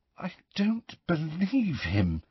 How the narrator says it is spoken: said Hermione in a very unsteady voice

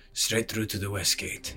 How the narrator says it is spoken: he rumbled

